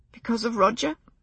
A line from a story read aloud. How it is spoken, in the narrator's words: she said, and was infuriated to hear her voice break on the name